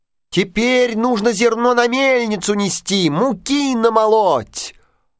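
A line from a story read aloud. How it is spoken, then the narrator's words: Mice squeaking in unison. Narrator (Russian): мышата запищали в один голос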